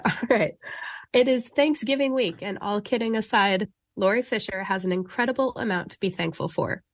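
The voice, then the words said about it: Hoarse, croaky voice. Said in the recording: “the frog that has taken up residence in her throat ... I sound like this ... hear it in my voice”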